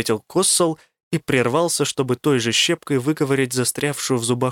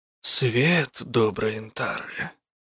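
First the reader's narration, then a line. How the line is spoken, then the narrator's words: Muttered. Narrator (Russian): пробормотал он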